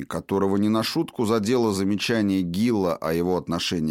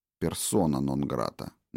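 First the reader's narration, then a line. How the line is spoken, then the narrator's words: Quiet prompting. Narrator (Russian): негромко подсказал Филипп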